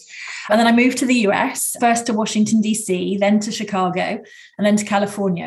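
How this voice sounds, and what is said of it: British English accent. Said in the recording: “I grew up and I worked in the UK, as you can probably tell from my accent”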